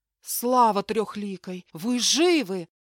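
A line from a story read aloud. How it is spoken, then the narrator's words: Cheerful exclamation by rider. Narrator (Russian): воскликнул всадник, широко улыбаясь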